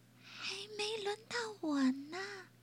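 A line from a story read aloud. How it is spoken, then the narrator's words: Soft voice. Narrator (Chinese): 威勒轻声说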